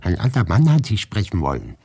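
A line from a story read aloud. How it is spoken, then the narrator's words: Calling out. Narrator (German): rief Maria Wassiljewna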